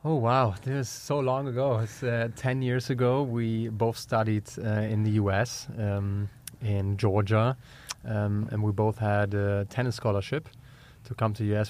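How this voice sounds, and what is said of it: German accent. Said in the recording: “as you can tell from my German accent.”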